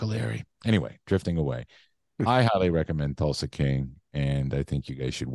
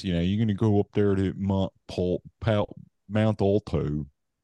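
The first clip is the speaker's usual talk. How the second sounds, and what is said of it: Put-on Philly accent. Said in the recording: “Pittsburgh accent's a little more like this, right? Down in Philly there, they talk like this.”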